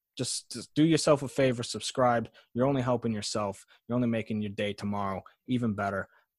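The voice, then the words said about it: Passionate, slips into Bronx-Boston accent. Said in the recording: “You sound like you had a Bronx accent there. Were you kicking in like a Boston or Bronx accent there? ... I was passionate ... I just get louder”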